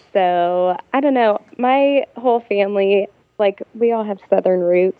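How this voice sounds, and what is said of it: Slight Southern twang, Midwestern mix. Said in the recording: “Your like dialect, is it Ohio, Alabama? ... I hear a little bit of both sometimes ... a little bit of a twang”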